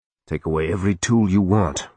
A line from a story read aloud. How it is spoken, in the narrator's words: Reagan said through gritted teeth